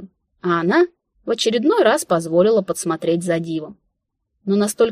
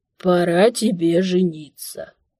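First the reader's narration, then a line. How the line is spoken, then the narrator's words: Old man's creaky voice. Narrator (Russian): скрипящим голосом вещал старик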